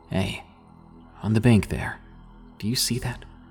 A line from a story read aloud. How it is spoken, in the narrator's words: he asked